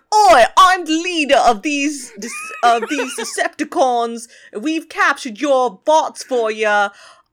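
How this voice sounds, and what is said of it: Put-on Cockney accent. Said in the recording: “I have a Cockney accent for no reason.”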